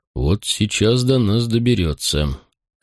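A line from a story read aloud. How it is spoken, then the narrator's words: Lowered deep bass voice. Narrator (Russian): Секст понизив голос, пробасил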